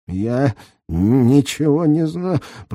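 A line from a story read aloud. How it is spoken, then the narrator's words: Hoarse wheeze. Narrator (Russian): просипел Резникович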